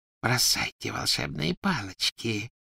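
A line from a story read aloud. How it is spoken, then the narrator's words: Whisper. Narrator (Russian): прошептала она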